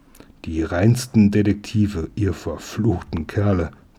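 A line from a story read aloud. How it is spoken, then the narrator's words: Growling. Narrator (German): knurrte der Wachtmeister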